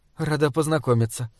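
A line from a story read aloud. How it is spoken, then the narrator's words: Murmur. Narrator (Russian): пробормотала Бальведа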